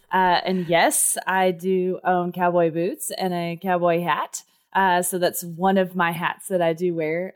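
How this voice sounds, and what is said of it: Texas accent. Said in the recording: “if you can't tell by my accent, I was born and raised in Texas”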